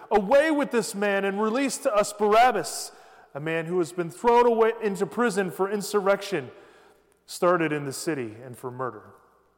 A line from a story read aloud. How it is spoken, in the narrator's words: they all cried out together